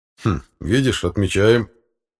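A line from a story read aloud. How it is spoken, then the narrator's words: Father's wry grunt. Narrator (Russian): хмыкнул отец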